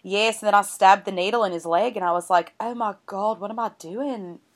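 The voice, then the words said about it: Australian accent drifting Irish. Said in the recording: “my Australian accent ... that turned, like, Irish at the end”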